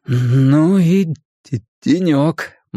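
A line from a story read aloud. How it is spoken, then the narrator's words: Gloomy. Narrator (Russian): мрачно изрек Билл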